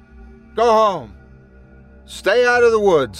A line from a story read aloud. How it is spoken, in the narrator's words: I'd shout at them